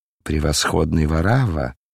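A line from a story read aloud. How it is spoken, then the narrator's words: Cold pleasant voice. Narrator (Russian): продолжал гость все тем же холодным, приятным голосом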